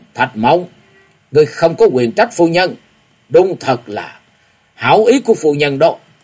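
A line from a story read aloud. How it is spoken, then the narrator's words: Old man shouting. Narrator (Vietnamese): lão quát lên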